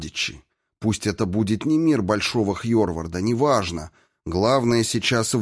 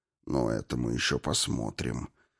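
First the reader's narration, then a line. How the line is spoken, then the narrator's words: Gloomy. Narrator (Russian): мрачно проговорил губитель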